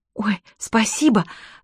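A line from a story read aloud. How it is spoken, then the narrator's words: Breathless exhale. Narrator (Russian): выдохнула Чермейн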